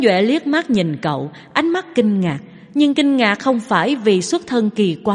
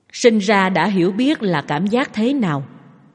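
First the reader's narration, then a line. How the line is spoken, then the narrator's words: Plain. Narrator (Vietnamese): Tống Duệ hỏi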